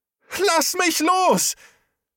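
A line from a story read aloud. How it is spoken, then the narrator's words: Scream while struggling. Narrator (German): schrie auf und versuchte, sich zu wehren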